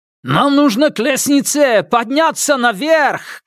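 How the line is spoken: Shouting over roaring water. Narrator (Russian): крикнул слуга, перекрывая рев воды

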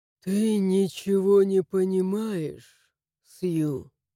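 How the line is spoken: Lifeless voice. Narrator (Russian): Безжизненным голосом отозвался он

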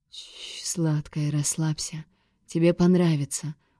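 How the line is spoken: Soothing whisper. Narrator (Russian): успокаивающе прошептал он

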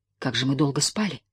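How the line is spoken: Mumbled. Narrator (Russian): пробормотал

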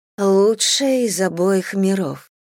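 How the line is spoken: Mutter. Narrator (Russian): пробормотала Лейла

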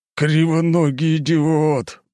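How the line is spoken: Big man growling. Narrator (Russian): прорычал здоровяк

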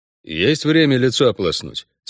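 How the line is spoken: Glum question. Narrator (Russian): спросил Геральт уныло

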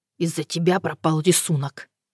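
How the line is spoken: Hoarse, angry mutter. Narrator (Russian): хрипло и злобно пробормотал он

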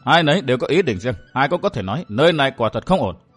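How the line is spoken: Cold faint smile. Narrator (Vietnamese): chàng cười nhạt nói

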